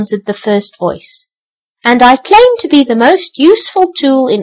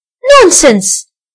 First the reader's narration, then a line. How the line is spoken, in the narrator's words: exclaimed the second voice